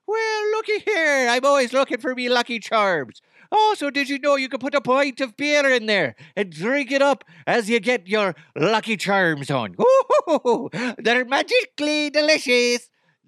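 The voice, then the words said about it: Put-on Irish accent. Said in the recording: “Have you ever heard my Irish accent? ... That's my Irish accent.”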